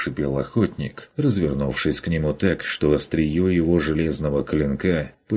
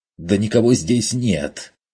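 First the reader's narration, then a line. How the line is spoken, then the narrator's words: Angry retort. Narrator (Russian): зло отозвался тот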